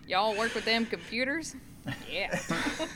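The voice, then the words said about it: Put-on Oklahoma rural accent. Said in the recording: “I could go full Oaky on you”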